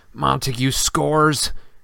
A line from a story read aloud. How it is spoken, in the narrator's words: Lee groaned